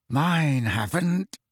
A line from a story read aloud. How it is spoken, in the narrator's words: said George through clenched teeth